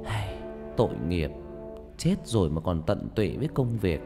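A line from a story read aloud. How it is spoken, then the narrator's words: Old woman sighing. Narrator (Vietnamese): Bà bán nước thở dài và nói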